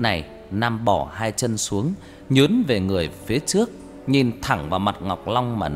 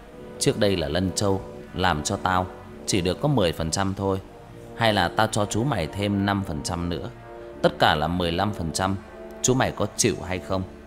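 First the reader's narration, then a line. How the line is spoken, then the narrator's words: Lowered voice. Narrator (Vietnamese): Nhưng rồi lại nhỏ giọng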